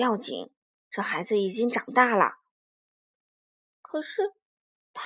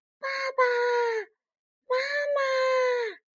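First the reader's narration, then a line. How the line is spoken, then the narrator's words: Repeated crying out. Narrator (Chinese): 它不断的叫啊叫啊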